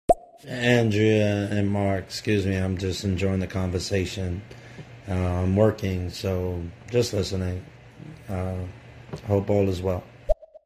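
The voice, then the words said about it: Speaker with a noticeable accent. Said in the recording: “he's got a great accent”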